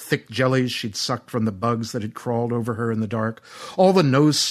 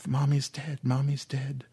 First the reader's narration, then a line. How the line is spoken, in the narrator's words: Aaron said quietly to the invisibles